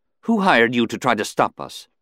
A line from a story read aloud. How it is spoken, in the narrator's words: she couldn't keep from blurting